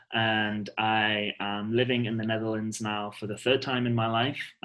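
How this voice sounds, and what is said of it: British accent. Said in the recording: “I'm from the UK, in case you couldn't tell from my beautiful accent”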